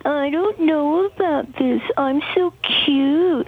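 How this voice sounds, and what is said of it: Cutesy imitation of another person's voice. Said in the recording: “tries to play dumb, play so cutesy ... That's such a good impersonation of you. It sounds exactly like you.”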